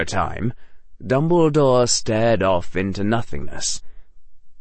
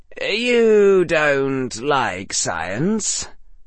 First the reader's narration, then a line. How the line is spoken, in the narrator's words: said Harry a little wearily